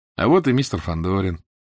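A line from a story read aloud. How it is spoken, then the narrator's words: Matter-of-fact tone. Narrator (Russian): будничным тоном сказал страшный человек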